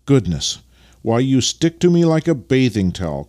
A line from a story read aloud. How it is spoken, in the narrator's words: cried Vasily